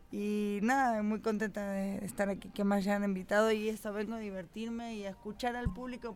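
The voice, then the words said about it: Softened Argentine Spanish accent. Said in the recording (Spanish): “como me escuchan, soy argentina ... tengo amenizado el acento”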